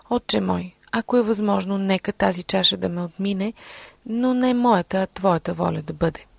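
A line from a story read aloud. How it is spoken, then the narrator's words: Praying. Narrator (Bulgarian): Исус се молеше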